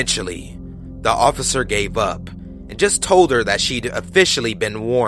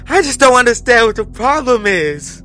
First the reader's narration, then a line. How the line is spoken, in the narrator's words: tearfully, over and over again